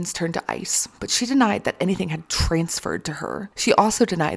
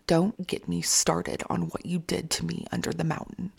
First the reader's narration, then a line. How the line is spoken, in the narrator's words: said coldly